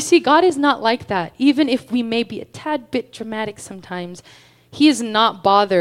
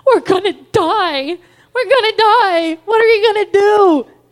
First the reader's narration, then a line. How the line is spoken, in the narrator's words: screaming